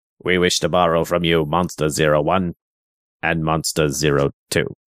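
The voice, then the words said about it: Impression of the Planet X Controller. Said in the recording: “I love impersonating the controller ... You're very good at it.”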